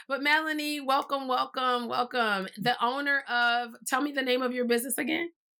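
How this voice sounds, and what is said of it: Hoarse voice. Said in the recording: “I'm hoarse, y'all ... I'm getting over a cold, so my voice is kind of gone.”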